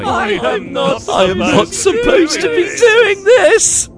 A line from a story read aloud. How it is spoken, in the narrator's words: I giggled